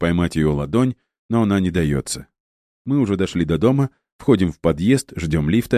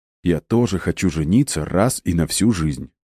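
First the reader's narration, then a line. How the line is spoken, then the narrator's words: Very calm. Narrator (Russian): Максимально спокойно говорю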